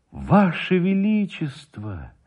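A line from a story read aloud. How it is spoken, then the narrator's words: Exclaimed. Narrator (Russian): воскликнул Никитин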